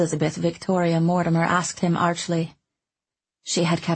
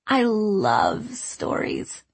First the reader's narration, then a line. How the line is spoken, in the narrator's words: she purred like a cat